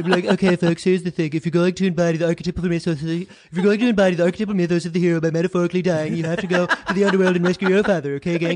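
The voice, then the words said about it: Imitates another person's voice, very fast. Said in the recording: “an impression of Donald Trump doing an impression of Jordan Peterson in the speed of uh, speed of Ben Shapiro”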